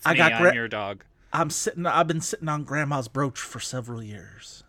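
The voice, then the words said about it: Vague generalized Southern accent. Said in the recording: “I'm doing my half Southern Jodie Foster accent ... It's okay that you can't tell what accent I am doing because it is purposefully vague ... Generalized South”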